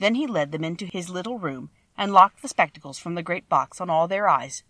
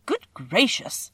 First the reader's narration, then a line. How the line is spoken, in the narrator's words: exclaimed the man